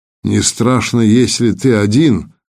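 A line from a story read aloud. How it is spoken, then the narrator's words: Even, steady voice. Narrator (Russian): проговорил ровным голосом фон Хорст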